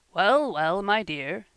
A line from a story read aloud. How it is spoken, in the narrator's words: said her father, with a quiet laugh